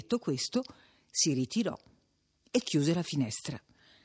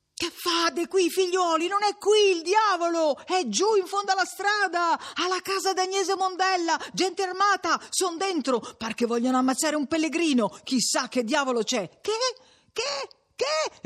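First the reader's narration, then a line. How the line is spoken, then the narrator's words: Shouted after catching breath. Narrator (Italian): Quando ebbe ripreso fiato, gridò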